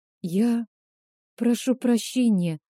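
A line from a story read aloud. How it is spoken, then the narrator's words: Forced, reluctant words. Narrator (Russian): выдавила Индира, пряча глаза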